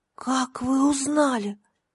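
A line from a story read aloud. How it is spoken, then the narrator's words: Whisper. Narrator (Russian): прошептала она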